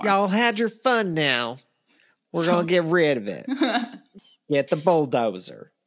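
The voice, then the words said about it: Put-on accent. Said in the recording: “It's my favorite accent you've done.”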